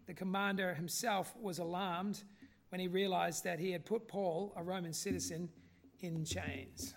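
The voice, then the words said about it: Quasi-Canadian accent. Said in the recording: “your sort of quasi-Canadian accent, that sounded pretty funky”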